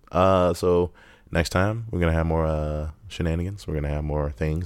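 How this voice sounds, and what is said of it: Sounds sick. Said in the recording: “I sound sick, because I still am a little bit”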